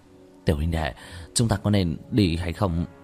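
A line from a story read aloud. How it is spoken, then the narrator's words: Soft, slightly frightened. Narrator (Vietnamese): Lưu Quân có chút sợ hãi nhẹ giọng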